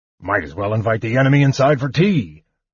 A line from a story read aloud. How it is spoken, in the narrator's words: the dwarf had grumbled